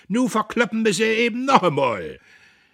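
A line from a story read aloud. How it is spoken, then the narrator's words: Shriek. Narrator (German): Kühnchen kreischte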